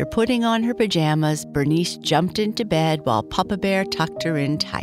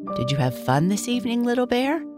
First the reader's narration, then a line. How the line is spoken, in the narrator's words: Quietly, Papa Bear asked